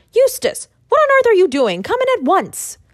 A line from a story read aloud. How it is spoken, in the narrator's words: I called out